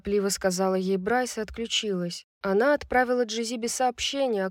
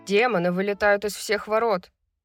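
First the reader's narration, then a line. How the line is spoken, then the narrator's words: Shouting over a din. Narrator (Russian): сообщил Деклан, перекрикивая общий гул конференц-зала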